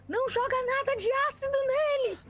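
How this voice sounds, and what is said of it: Shouting. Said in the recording (Portuguese): “tá gritando”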